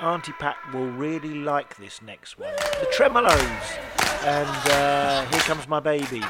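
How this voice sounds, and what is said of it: Hoarse, croaky throat. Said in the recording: “I've got a bit of a frog in my throat at the moment. I think like most, you know, with this cold dodgy weather”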